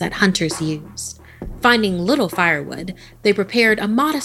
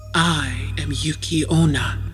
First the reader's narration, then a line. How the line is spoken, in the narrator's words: the woman whispered